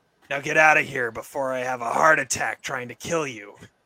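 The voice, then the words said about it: A fairly good voice impression. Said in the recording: “It's not a bad impression.”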